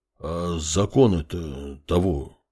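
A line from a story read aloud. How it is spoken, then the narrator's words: Mumbling man. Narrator (Russian): промямлил мужчина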